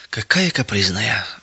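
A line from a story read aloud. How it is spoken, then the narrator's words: Sighing. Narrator (Russian): вздохнула фрау Бекер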